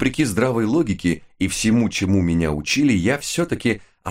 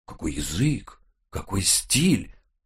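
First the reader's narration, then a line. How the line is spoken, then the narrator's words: Reverent breathy exclamation. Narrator (Russian): благоговейно выдохнул он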